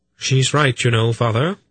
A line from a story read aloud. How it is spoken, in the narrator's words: Polgara said very calmly